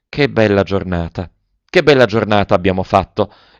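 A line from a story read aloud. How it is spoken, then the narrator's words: Sighing. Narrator (Italian): sospirava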